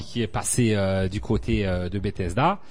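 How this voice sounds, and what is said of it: Puts on an accent. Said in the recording (French): “Je sais pas pourquoi je prends cet accent.”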